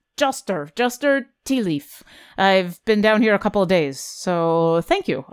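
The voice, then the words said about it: Thick put-on character accent. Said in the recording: “Your accent's a little thick.”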